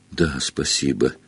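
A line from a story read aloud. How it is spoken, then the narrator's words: Uncertain sudden mumble. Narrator (Russian): неуверенно пробормотал Гарри, вдруг спохватываясь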